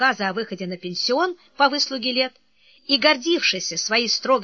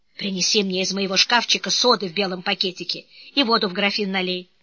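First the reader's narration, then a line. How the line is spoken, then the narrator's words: Whisper. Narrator (Russian): шепнул ему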